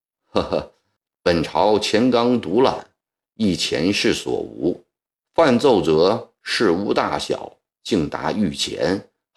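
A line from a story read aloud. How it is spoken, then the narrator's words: Smiling. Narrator (Chinese): 含笑道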